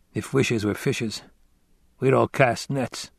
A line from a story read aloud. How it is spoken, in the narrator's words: he murmured